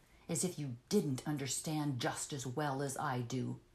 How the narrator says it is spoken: he sneered with scorn in his voice and a sort of resignation

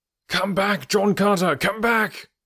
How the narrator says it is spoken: cried a voice

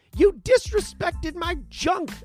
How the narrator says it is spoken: I shouted

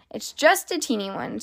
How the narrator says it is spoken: said Dr

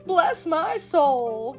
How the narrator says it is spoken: gurgled a voice rich with chuckles

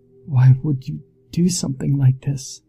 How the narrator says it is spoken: he whimpers

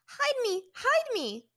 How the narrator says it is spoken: Ty Lee suddenly dropped what she was doing and jumped behind Aang, squeaking

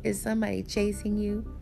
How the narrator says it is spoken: She laughed again

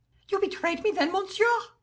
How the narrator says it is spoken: cried the king, kindling with a wild pride

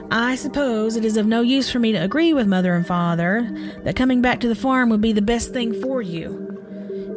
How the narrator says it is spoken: Her sister sighed and said

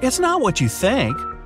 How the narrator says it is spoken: she exclaimed

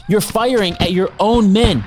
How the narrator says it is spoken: yells

